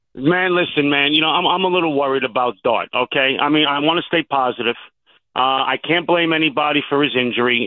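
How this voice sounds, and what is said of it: Heavy New York Bronx accent. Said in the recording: “the heavy Brooklyn accent ... it's the Bronx, but, you know, close enough”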